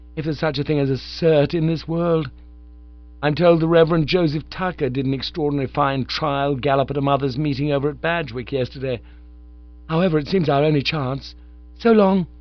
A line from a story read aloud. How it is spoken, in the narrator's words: said Eustace gloomily